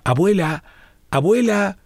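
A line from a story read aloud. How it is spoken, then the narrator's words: Small grandchild shouting. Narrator (Spanish): gritaba su nietecito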